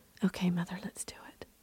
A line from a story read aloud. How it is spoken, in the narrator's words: whispered